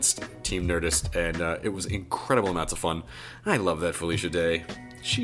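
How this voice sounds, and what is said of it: Usual voice. Nothing is said of it.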